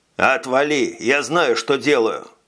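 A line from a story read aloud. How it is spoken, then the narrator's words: Rude snapping. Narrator (Russian): Грубо огрызнулся Чече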